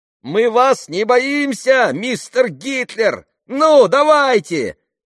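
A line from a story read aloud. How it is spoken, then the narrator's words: Shouted. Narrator (Russian): прокричала она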